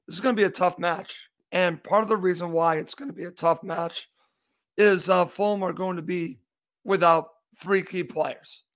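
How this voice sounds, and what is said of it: Hoarse voice. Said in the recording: “I am a little hoarse, so you might hear this in my voice.”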